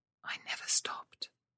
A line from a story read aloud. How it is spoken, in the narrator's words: she whispered